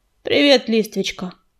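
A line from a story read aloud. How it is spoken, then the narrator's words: Gruff mumble. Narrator (Russian): буркнул он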